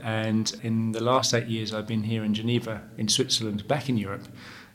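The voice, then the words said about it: English accent. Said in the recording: “I'm English born, as you can probably tell from my accent”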